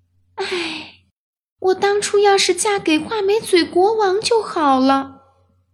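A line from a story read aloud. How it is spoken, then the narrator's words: Sighing. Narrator (Chinese): 公主叹息道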